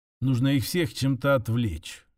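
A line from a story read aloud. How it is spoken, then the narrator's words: Muffled mutter to himself. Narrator (Russian): глухо пробормотал он сам себе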